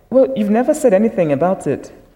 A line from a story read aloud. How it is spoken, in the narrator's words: she said